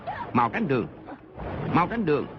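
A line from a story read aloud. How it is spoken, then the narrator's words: Loud command. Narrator (Vietnamese): Mộc Hoa Lê ... quát lớn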